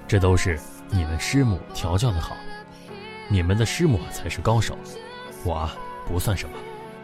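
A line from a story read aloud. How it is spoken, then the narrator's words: Tender, doting. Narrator (Chinese): 他很温柔地 充满溺爱地说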